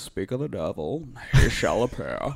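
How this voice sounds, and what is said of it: Imitates a masked movie villain's voice. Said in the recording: “That's pretty good impression. ... Not bad. ... Bane voice”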